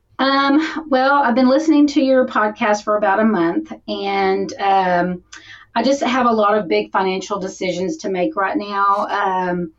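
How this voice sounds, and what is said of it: Texas accent. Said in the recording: “I hardly would have known you were from Texas, with that accent.”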